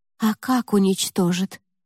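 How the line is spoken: Whisper. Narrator (Russian): прошептала Ева

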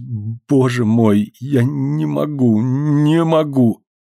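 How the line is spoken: Ashamed stammering. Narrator (Russian): Ему стало стыдно, и он повторял, заикаясь

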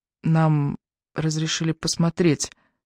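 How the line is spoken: Quiet female addition. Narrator (Russian): негромко добавила Эбби

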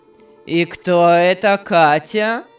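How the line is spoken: Angry shout. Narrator (Russian): Сердито кричал Беннет

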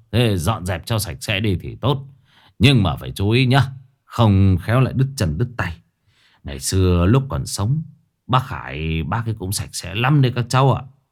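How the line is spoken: Hypocritical forced smile. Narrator (Vietnamese): ông vẫn cố mỉm cười, nói bằng giọng giả nhân giả nghĩa

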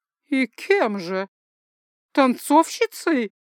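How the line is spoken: Through clenched teeth. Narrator (Russian): процедила она сквозь сжатые челюсти

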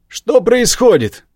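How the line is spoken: Furious barked shout. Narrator (Russian): гаркнул Адам, сверкая яростным взглядом

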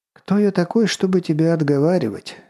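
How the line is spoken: Resigned sigh. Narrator (Russian): обреченно вздохнул Кренц

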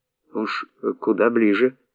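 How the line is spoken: Muttering. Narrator (Russian): пробормотал Василий

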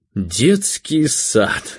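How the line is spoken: Speech then loud laughter. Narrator (Russian): сказал и расхохотался

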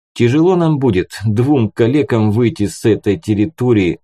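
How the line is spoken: Sighing. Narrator (Russian): вздохнул

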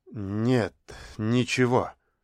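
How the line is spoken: Embarrassed mumble. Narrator (Russian): смущенно пробормотал Оскомин

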